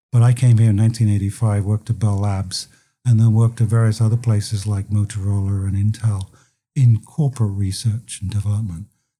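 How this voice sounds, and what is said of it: British English accent. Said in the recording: “as you can probably tell from my accent, I came from London”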